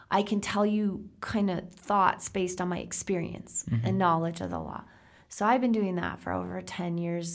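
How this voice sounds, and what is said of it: Slightly hoarse voice. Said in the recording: “I'm a little hoarse today. I think I did so many consults the last couple of weeks that I started to lose my voice.”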